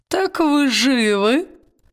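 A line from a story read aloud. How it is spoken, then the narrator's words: Hoarse, mocking croak. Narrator (Russian): хрипло-насмешливо каркнула она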